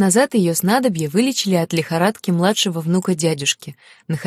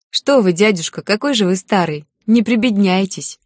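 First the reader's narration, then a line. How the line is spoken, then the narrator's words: Girl laughing tenderly. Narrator (Russian): Засмеялась девушка, с нежностью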